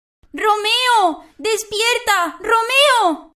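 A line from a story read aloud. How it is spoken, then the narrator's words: Inconsolable shouting. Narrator (Spanish): gritaba sin consuelo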